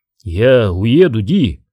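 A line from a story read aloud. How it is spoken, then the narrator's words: Hoarse. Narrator (Russian): сказал он хрипло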